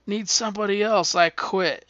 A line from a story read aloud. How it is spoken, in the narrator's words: he yells